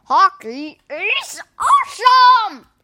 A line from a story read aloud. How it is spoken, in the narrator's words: roared